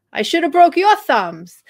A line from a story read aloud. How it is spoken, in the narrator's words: I yelled